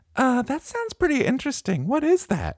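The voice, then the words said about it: Put-on girl's voice. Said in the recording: “your girl voice is getting good”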